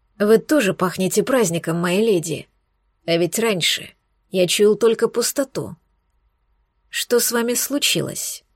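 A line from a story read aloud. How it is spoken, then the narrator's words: Quiet purring, serious, demanding. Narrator (Russian): Несмотря на тихий голос и почти мурлыкающий тон, вопрос прозвучал очень серьезно и требовательно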